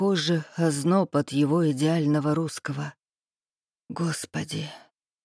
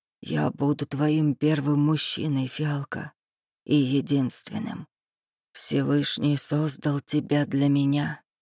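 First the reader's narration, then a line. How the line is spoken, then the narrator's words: Whispered. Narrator (Russian): шептал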